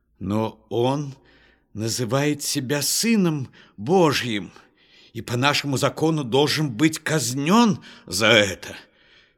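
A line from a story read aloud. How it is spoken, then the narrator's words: Shouting priests. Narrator (Russian): кричали священники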